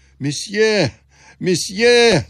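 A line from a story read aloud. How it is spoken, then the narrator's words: Poor man shouting. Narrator (Russian): закричал бедняк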